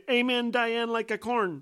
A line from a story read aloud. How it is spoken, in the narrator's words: she said very loudly